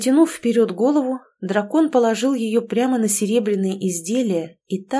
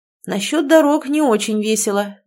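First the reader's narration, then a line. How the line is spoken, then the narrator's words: Sighing dragon. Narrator (Russian): вздохнул дракон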